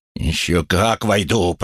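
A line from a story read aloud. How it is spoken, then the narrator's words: Growled. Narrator (Russian): прорычал Хэнк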